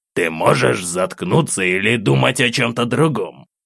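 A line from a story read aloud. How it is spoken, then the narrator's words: Angry grumble. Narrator (Russian): Злобно проворчал голос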